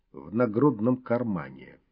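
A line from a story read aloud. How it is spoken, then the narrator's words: Calm. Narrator (Russian): спокойно произнес человек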